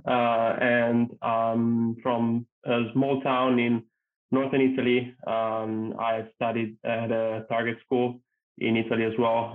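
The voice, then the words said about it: Thick Italian accent. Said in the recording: “I'm originally Italian, as you can probably tell from my thick accent”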